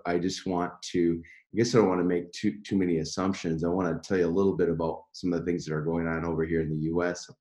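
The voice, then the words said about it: Deep, low early-morning voice. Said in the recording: “7:05 a.m., which would explain my baritone ... my voice might not sound like it”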